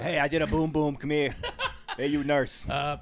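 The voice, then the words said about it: Silly put-on accent. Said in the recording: “where'd you get that accent? ... the diaper changing accent”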